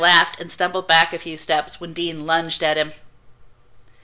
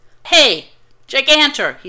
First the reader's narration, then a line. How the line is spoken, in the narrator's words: shouted